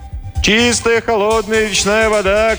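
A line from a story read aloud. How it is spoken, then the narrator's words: Street vendor's cry. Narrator (Russian): кричал разносчик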